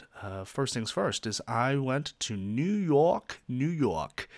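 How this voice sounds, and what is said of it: Poor attempted New York accent. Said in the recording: “That's a terrible attempt at a New York accent”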